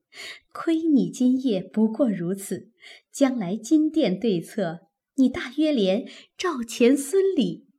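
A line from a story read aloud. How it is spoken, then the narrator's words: Quiet teasing laugh. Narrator (Chinese): 宝钗悄悄地咂嘴点头，笑道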